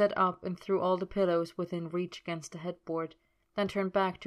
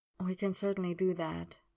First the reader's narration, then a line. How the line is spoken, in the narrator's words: Merlin murmured